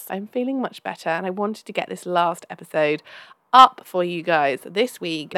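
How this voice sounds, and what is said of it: Slightly hoarse voice. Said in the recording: “I haven't been very well this week. So you can probably tell my voice, I apologize if it's a bit annoying, is a little bit hoarse.”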